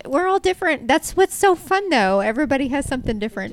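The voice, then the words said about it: Southern American accent. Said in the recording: “You do have a southern accent.”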